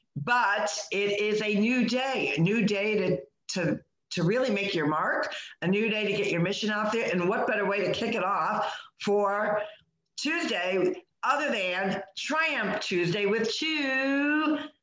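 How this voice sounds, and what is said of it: Slightly raspy, dry-throated voice. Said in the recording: “I'm a little raspy this morning, a little dry throat going on there.”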